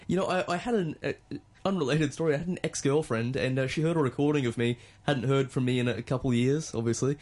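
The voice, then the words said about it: Australian accent. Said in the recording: “You can hear it in my voice. ... I forgot how Australian you sounded.”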